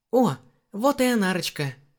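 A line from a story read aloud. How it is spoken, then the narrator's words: Joyful exclamation. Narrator (Russian): радостно воскликнул Даран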